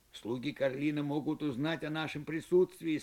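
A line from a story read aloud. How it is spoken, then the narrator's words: Plain. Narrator (Russian): сказал Эл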